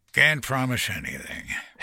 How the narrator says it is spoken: Henry grumbled sourly

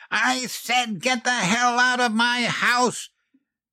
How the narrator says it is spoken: She roared

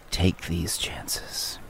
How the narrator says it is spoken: Bello looks wistfully back to the grotto and says

